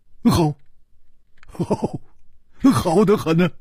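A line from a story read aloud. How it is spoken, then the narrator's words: Grinning, cheerful. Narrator (Chinese): 笑嘻嘻地说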